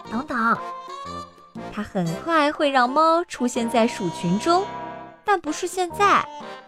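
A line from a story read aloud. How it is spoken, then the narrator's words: Whispering. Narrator (Chinese): 尼佩尔悄声说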